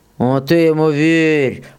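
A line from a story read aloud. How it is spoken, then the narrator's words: Muffled droning soldier. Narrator (Russian): прогудел другой боец из-под поднятого ворота шинели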